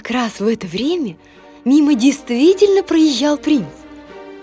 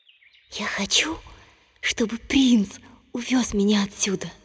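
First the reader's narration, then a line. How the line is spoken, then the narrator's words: Princess whispering. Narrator (Russian): принцесса прошептала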